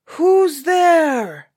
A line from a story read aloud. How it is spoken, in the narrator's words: roared the giant